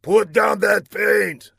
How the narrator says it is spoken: snarled Laszlo

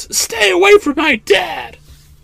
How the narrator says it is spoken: she yells

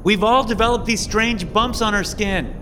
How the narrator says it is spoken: the blonde girl shouts

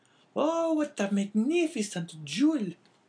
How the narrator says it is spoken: cried the astonished woman

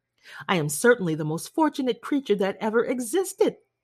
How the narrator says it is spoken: cried Jane

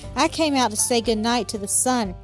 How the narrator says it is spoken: she said

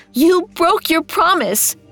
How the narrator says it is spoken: screamed

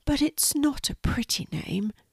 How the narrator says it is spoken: said Quincy sadly

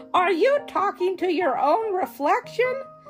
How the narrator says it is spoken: She laughed

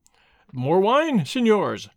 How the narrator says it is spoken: he exclaimed in a loud voice

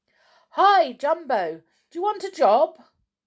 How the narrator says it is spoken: shouted

